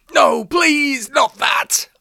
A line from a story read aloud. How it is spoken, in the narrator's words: I shrieked